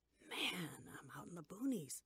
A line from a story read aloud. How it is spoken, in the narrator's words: he whispered to himself